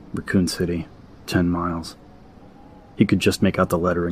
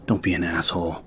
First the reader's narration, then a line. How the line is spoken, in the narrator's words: Leon mumbled to himself, no-nonsense adult tone of voice